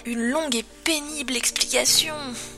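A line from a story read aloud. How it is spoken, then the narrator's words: Finished in a murmur. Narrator (French): finit Rumble dans un murmure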